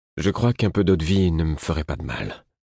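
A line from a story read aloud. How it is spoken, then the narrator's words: Faint, faltering voice. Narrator (French): dis-je d'une voix défaillante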